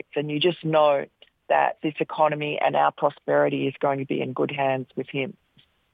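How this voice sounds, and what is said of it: Australian accent. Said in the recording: “She has a wonderful accent.”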